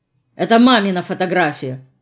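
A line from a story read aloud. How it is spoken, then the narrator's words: Mutter. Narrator (Russian): буркнул я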